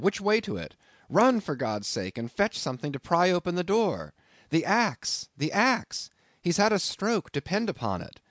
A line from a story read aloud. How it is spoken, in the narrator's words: cried I